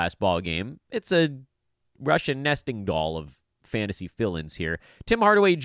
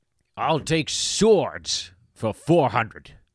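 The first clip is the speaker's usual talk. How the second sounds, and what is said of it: Imitates another person's voice. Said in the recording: “We're doing the rest of this show as Sean Connery. Or Daryl Hammond's impersonation of Sean Connery on Celebrity Jeopardy”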